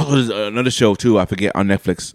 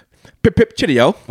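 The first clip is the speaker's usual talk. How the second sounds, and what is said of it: Mock British accent. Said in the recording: “It's a British show, so if they have an accent.”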